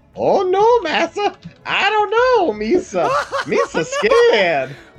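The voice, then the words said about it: Silly put-on cartoonish character voice. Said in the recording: “why giant you gotta talk like a Misa?”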